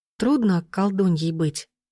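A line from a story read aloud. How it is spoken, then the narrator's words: Timid girl's question. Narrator (Russian): робко спросила девушка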